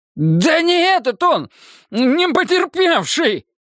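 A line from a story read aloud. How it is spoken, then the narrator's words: Hateful shout. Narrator (Russian): выкрикнул Славик с ненавистью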